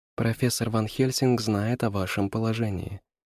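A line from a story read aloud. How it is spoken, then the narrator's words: Quiet. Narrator (Russian): сказала она тихо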